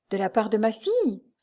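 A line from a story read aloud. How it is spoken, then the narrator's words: Stout woman exclaiming. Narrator (French): s'écria la forte femme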